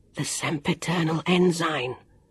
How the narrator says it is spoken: Jonathan whispered

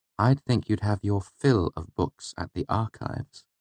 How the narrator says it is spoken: she said, her voice thick with envy

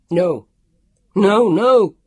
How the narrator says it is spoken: he yelled

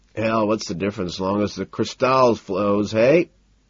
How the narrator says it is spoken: He chuckles

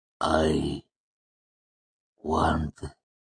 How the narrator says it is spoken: he began, his voice slow and thick

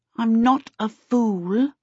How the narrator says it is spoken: Charmaine said haughtily

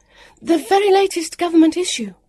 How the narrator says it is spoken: Vivian said hastily

